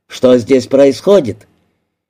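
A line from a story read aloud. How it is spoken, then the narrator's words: Big man, stern question. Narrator (Russian): Третий, высокий, широкоплечий, спросил строго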